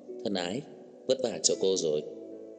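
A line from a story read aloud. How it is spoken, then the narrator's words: Soft, smiling, affectionate. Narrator (Vietnamese): mỉm cười gọi nhỏ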